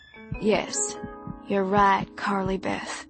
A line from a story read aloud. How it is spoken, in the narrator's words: he said softly